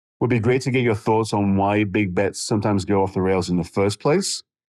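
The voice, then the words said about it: English accent. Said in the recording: “The English accent gives him away.”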